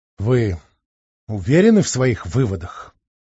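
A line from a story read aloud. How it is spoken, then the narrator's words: Tired question. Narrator (Russian): наконец устало спросил зав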